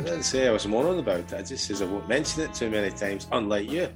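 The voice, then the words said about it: Voice with a slight cold. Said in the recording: “I've got a bit of a cold,”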